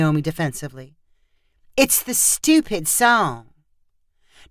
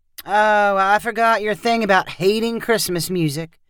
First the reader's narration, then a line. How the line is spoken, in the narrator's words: April said lazily